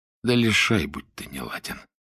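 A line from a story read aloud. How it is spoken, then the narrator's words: Barely audible mutter. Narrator (Russian): еле слышно пробормотал он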